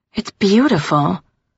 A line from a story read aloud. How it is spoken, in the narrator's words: I breathed